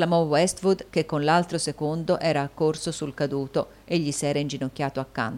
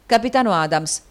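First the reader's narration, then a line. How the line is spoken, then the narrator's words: Hurried exclamation. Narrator (Italian): esclamò in fretta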